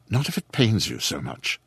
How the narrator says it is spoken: said softly

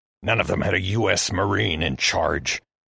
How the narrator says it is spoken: Heston hissed

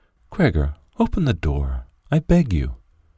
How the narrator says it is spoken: his sister whispered

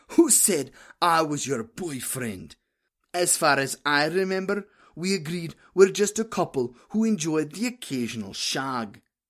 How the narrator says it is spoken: I wheeze in between drags

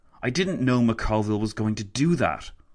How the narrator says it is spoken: Lloyd George spat

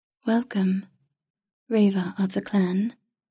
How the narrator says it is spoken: it said in a smooth, melodic voice that was not quite a man's nor a woman's

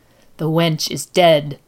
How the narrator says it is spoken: the woman hissed

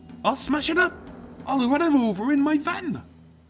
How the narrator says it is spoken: the hot-tempered Tim as he threatened her, squealing

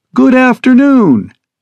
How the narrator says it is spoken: she chirps resoundingly over the speakers

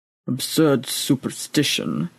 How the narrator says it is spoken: muttered the old priest into his breather

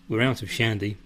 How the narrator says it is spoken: says Teresa

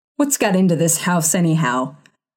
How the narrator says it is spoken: he growled

